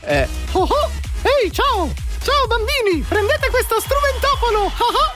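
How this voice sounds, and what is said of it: Goofy cartoon character voice. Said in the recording (Italian): “Era Pippo, ovviamente.”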